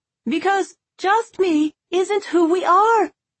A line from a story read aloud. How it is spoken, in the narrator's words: Isolde hollered back